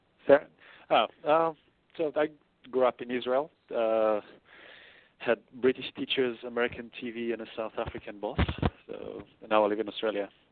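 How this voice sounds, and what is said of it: Mixed accent with Israeli influence. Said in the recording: “my accent is a bit all over the place... I can hear the Israeli influence there”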